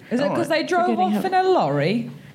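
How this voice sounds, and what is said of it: Put-on English accent. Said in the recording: “Stop practicing your English accent. ... this is my impression of Nisha around the house”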